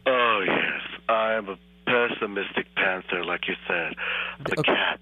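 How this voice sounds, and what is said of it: Man imitating a woman's voice. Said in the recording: “You're a man doing a woman's voice. ... I admit my accent needs a little work”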